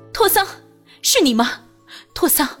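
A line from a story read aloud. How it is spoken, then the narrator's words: Ecstatic loud shout. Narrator (Chinese): 君玉脑海里瞬间一片空白，好一会儿才…欣喜若狂的大声喊道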